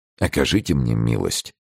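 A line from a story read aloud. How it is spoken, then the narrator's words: Request. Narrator (Russian): попросил Атос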